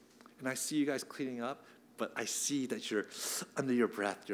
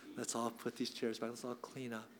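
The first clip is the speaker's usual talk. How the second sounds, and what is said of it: Kind, gentle, loving tone. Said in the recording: “in my kind, nice voice, in my loving voice”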